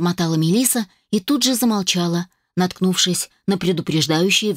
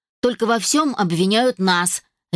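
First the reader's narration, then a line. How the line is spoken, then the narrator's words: Sharp. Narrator (Russian): резко произнесла Мелисса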